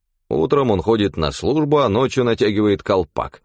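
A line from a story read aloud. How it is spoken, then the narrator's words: Wry snort. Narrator (Russian): хмыкнул Амнис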